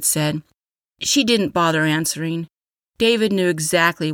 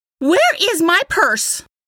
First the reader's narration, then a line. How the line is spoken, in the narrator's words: A shrill scream